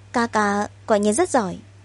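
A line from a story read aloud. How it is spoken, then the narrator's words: Bright, smiling. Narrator (Vietnamese): Lưu Sơ sáng mắt, lại mỉm cười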